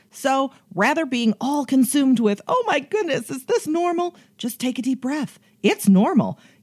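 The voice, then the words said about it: Chicago accent. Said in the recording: “I love that accent. ... that Chicago accent”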